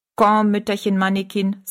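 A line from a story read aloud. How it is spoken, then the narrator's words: Plain. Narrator (German): sagte Master Puck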